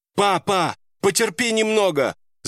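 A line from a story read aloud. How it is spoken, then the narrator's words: Shouting with all her might. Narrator (Russian): Закричала она изо всех сил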